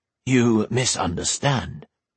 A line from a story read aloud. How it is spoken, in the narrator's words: Jenai said